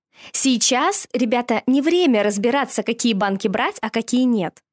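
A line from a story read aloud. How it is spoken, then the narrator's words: Plain. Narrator (Russian): сказала мама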